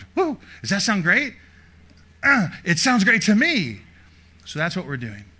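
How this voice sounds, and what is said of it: Loud, yelling preaching voice. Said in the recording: “I apologize if I'm yelling. It's the third service and I have to”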